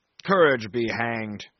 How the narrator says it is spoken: growled Brierly

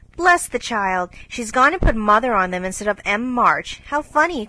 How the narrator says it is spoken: cried Jo

